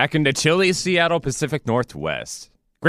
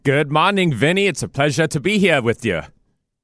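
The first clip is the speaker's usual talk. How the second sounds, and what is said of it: Slight Boston accent. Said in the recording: “you picked up a little bit of a Boston accent ... you sound wicked bad, Pally”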